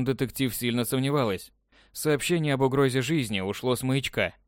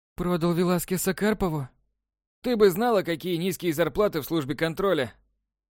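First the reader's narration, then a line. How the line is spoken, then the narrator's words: Feigned sigh. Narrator (Russian): Делано вздохнул Краузе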